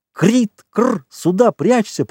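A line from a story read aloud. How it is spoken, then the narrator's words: Cool-headed urgent shout. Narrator (Russian): прокричал более хладнокровный Красношейка, увидев, что к ним идет человек с ружьем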